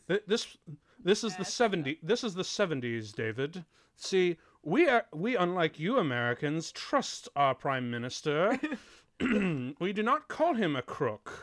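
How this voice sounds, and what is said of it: Hammed-up put-on British accent. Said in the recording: “I'm really hamming up with this... My British accent.”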